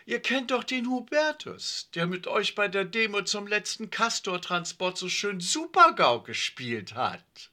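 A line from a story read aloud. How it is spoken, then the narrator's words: Sudden call. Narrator (German): rief plötzlich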